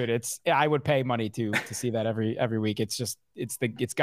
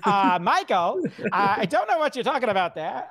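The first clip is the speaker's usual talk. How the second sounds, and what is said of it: Imitates a sports radio host's voice. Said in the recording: “You do a really good Mad Dog impression. So if you could just come back at me with some Mad Dog”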